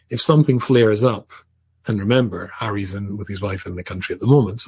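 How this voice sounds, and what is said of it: English accent. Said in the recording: “originally from England, as you can tell from his accent”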